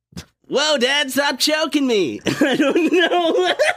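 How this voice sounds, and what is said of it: Bad cartoon boy voice impression. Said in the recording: “worst Bart Simpson impression I've heard in my... ever! I've never heard a Bart Simpson impression worse than that! ... It sounded like Mr. Klein.”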